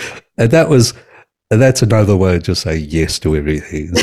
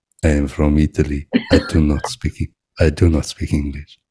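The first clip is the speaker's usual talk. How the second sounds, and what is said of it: Put-on foreign Italian accent. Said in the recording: “It's really popular with an accent.”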